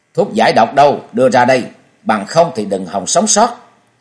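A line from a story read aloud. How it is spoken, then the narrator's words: Fierce loud shout. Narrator (Vietnamese): chàng quát mắt thét to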